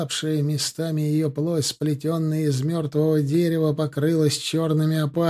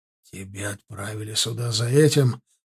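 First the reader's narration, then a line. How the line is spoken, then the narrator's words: Hoarse rasp. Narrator (Russian): прохрипел Ордан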